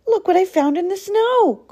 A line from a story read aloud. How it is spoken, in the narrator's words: cried Fox